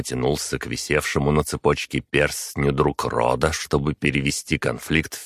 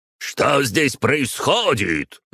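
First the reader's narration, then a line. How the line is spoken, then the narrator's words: Roaring, spluttering. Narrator (Russian): взревел он, брызгая слюной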